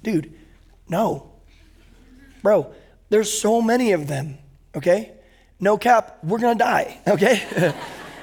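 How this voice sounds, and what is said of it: Put-on San Diego surfer accent. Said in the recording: “I'll go back to San Diego accent.”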